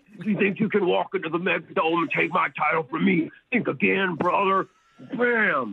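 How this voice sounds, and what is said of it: Wrestler character voice. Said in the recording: “Sometimes I do their voices and, like, battle fighting and wrestling... doing that voice”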